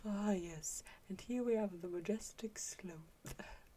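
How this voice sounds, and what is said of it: Weak David Attenborough impression. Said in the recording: “I can't do Attenborough... The majestic sloth. You have to say sloth. That's how you get into it... It's not very good, Attenborough.”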